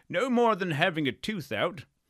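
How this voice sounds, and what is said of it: Imitated Liston accent. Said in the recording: “That's my Liston accent... That's a pretty good one.”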